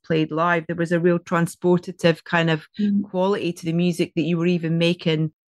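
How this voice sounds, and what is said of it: Scottish accent. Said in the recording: “It's my Scottish accent. My vowels are terrible.”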